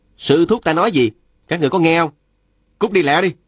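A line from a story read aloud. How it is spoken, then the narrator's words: Shouting. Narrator (Vietnamese): Phùng Bất Thôi la lên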